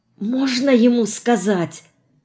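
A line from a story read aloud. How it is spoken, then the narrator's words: Whispered. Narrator (Russian): шепнула Марина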